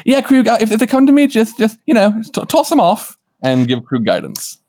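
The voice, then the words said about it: Put-on Gnomish, British-sounding accent. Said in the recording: “with a British accent ... it's not a British accent. It's a, where am I from? ... It's a Gnomish accent.”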